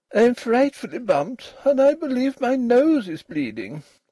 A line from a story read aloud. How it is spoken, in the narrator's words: said Ruth, still more plaintively